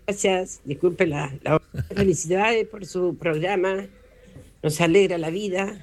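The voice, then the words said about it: Hoarse voice. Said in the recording (Spanish): “estoy ronca. Estoy ... ronca”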